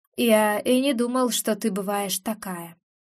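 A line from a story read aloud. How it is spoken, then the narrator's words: Quiet remark. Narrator (Russian): тихо замечает Антон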